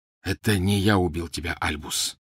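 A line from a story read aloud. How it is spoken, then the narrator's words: Quiet voice. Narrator (Russian): негромко произнес вошедший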